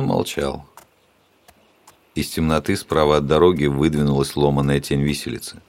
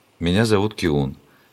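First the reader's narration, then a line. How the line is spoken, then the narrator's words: Sad townsman. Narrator (Russian): печально сказал горожанин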